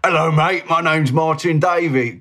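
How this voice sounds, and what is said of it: Gruff put-on Cockney accent. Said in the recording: “this really gruff Cockney ... kind of accent”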